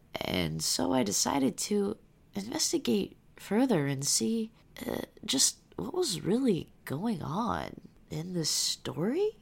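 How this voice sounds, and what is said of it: Radio-host voice, vocal fry, rising intonation. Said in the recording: “I got some good vocal fry on my end right now... I could do a This American Life... You gotta have that rising intonation and just that little bit of vocal rasp that I am rocking right now”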